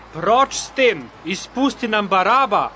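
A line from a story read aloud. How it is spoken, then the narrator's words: Crowd shouting together. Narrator (Slovenian): so vsi hkrati zavpili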